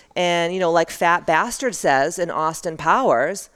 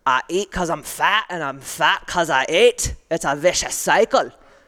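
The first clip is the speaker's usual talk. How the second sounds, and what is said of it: Bad put-on Scottish accent. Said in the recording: “That was like the worst Scottish accent ever.”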